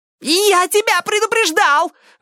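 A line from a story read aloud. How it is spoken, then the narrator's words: Shriek. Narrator (Russian): взвизгнул потрошитель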